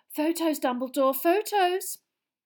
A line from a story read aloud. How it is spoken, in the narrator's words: cried Rita